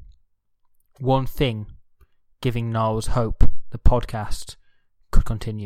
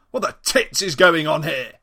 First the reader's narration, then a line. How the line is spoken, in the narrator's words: barked